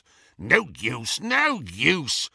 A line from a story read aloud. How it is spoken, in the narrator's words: snarled the goblin